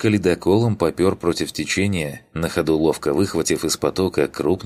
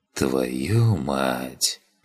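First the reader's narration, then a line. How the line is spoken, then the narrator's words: Whisper. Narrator (Russian): прошептал я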